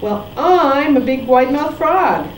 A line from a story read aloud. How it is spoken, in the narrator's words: shouted the wide-mouthed frog